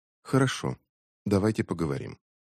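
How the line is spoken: Quiet after a shudder. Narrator (Russian): она вздрогнула, а потом тихо сказала

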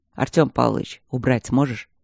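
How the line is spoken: Quiet question. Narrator (Russian): тихо спросил Стрелковский

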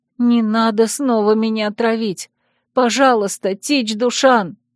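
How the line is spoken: Weak hoarse rasp. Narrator (Russian): прохрипела

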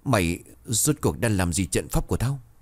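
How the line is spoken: Pained, astonished stammering. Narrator (Vietnamese): Con quỷ toàn thân đau đớn, vẻ mặt không khỏi kinh ngạc, miệng lắp bắp

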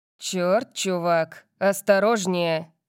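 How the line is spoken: Barked. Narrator (Russian): рявкнул Калиб

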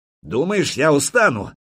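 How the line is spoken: Young prince shouting. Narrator (Russian): крикнул черниговский княжич

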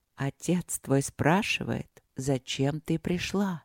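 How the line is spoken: Priest's echoing whisper. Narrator (Russian): шепнул священник эхом

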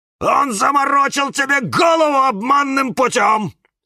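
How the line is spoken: Shouting. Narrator (Russian): закричал кактус Кирилл

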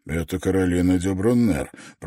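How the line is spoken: Muttered. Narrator (Russian): пробормотал Давенпорт, когда пара оказалась вне пределов слышимости

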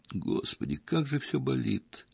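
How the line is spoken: Moan of pain. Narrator (Russian): простонала

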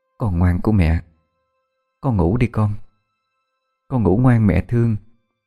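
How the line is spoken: Tender murmur. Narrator (Vietnamese): cô Mai đang thủ thỉ

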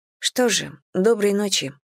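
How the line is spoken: Quiet. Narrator (Russian): тихо сказала

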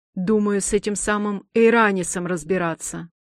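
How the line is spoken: Scoffing hum. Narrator (Russian): хмыкнул Цирин

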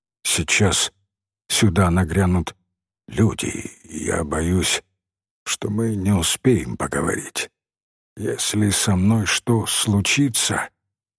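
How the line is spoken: Very quiet, clear. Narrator (Russian): сказал он очень тихо, но очень вразумительно

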